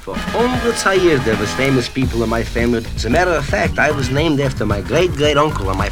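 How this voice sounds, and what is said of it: Pronounced Jewish comic dialect. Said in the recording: “That's how Jewish I am... I even walk with a dialect... And a rather pronounced dialect of that, I might add... I wouldn't have thought so with that accent.”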